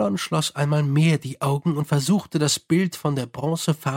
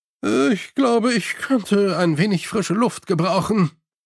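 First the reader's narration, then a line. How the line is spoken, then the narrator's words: Groaning. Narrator (German): stöhnte er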